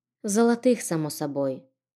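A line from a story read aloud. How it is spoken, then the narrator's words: Calm. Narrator (Russian): спокойно уточнила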